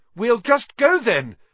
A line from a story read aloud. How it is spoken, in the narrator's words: Harry called desperately to Aragog, hearing leaves rustling behind him